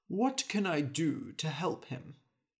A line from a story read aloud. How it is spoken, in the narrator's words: he said